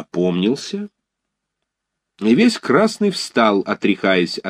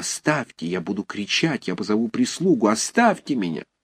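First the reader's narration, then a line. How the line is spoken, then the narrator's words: Whispering. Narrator (Russian): Тогда она шепотом сказала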